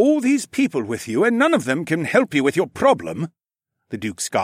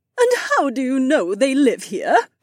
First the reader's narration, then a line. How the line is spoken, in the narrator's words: The Duchess whined